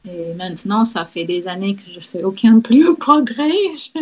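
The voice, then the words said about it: Non-native accent speaking French. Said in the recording (French): “j'aimerais bien être euh, parfait sans accent ... faut garder cet accent”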